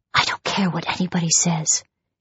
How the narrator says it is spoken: she whispered to herself

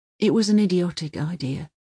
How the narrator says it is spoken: he says in a low voice

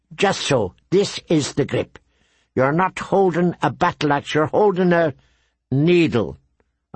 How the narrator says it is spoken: Arya finished for him, fiercely

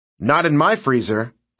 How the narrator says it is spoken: Bobby shouted

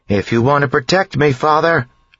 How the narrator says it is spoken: she yelled

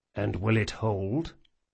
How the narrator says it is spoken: Locke spoke as softly as he could without whispering into the sailing master's ear

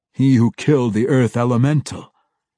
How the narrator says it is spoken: Zak snarled derisively

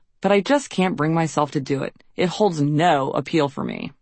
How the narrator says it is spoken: I sighed

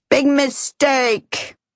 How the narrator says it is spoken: She shakes her head sadly and yells

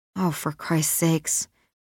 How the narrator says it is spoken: Maxine mutters under her breath

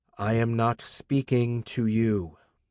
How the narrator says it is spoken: It was very hard to say evenly

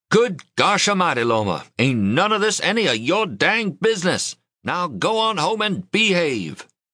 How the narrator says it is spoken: Grandpa shouted

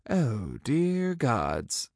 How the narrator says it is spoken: I muttered

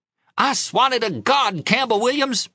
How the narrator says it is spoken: she yelled

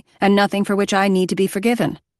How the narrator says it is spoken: Maddie said sharply

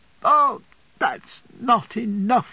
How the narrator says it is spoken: she cried

